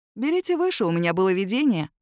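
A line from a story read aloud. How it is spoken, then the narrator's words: Snort. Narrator (Russian): хмыкнул он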